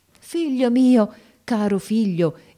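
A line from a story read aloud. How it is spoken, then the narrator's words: Joyful exclamation. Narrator (Italian): esclamai con un trasporto di gioia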